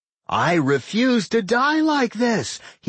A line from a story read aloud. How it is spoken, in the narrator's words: he screamed